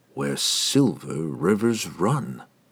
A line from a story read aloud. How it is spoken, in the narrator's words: he muttered in disbelief